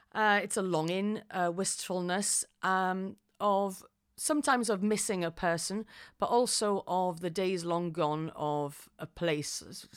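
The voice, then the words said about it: Welsh accent. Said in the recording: “you probably can tell by my accent, it's changed a bit since last year... I am from Wales”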